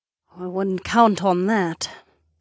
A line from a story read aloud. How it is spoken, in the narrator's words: Sorsha murmured